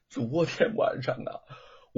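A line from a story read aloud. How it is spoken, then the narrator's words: Crying. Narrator (Chinese): 罗庞哭泣着说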